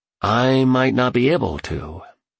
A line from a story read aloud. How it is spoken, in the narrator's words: he said as his voice trailed off